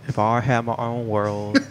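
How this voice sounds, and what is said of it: Imitates another person's voice. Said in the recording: “your best Tom DeLonge impression”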